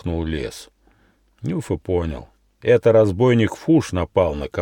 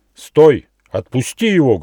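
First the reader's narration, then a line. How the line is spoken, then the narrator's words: Menacing shout. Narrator (Russian): грозно крикнул Нюфа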